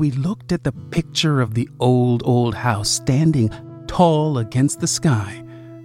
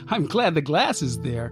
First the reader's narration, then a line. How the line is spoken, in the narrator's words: I said, giggling